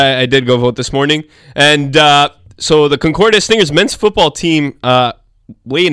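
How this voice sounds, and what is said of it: Usual voice. Nothing is said of it.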